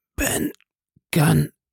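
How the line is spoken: Hoarse, rusty, awkward. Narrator (German): antwortete er, und seine Stimme klang heiser und ungeschickt, wie wenn in einem verrosteten Schloss ein Schlüssel herumgedreht wird

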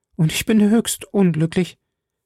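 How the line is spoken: Stammered. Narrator (German): stammelte Ketty

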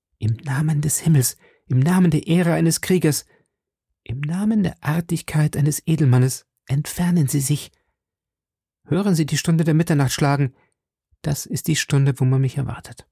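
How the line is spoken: Young woman pleading. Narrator (German): entgegnete die junge Frau flehend

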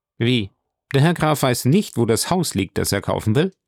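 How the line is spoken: Calling out. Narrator (German): Der Notar rief

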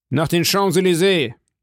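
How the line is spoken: Officer calling out. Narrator (German): rief der General

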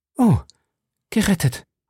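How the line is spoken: Stammering. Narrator (German): stammelte

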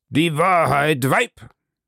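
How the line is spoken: Thundering. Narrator (German): donnerte er

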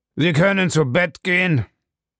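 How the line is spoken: Rough voice. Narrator (German): sagte Bellamy mit rauer Stimme

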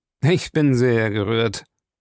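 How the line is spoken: Sarcastic reply. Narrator (German): erwiderte Jim sarkastisch

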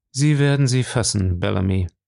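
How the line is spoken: Calm. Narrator (German): sagte er ruhig

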